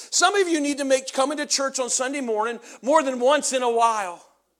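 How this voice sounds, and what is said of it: Yelling, loud preaching voice. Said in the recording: “Why are you yelling at me?”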